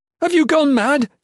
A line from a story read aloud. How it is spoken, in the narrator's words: yelled in Elvish